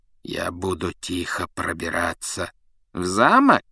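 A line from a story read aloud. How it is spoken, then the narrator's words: Insinuating question. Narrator (Russian): вкрадчиво переспросил Снег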